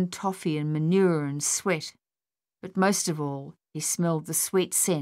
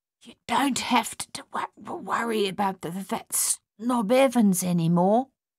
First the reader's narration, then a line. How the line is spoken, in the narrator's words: he whispered